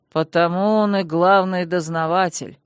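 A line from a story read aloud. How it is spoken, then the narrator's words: Weighty, tired elder. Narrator (Russian): веско изрек верховный магистр, устало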